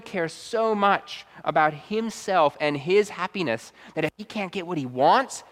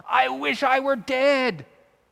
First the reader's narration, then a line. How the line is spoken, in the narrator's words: Jonah begins shouting like a toddler in a tantrum